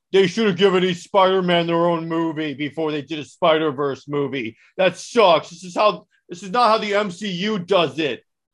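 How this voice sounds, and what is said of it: Mocking impression of annoying fans. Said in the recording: “my impression of all the comic book fans that annoy me”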